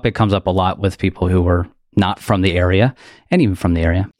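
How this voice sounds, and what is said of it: Delaware County Philadelphia-suburb accent. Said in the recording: “I am from suburbs outside of Philly, specifically a township called Delco or Delaware County. That's why my voice sounds like this ... that's where the accent comes from ... It's not a Philly thing. It's a specific area outside of Philadelphia.”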